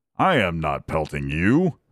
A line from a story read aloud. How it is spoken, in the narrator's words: answered the first, growling